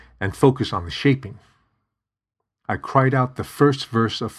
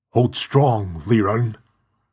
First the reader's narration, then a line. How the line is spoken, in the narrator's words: Father said through gritted teeth